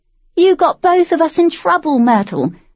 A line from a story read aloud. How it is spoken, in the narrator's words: the girl called out